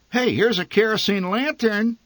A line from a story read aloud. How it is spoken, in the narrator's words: my mother said excitedly